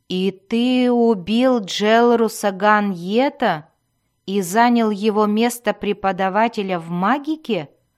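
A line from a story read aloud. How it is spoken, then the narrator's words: Growling voice. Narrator (Russian): заключила Верховная Мать голосом, похожим на рычание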